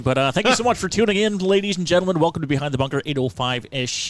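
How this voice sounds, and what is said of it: Radio announcer voice. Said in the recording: “radio voice ... I got about 5 minutes of radio voice before I lose it and go back to my squeakiness!”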